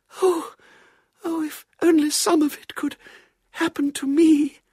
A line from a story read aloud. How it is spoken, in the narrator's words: breathed his confidant